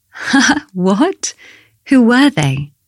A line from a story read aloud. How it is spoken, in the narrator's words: Bella laughed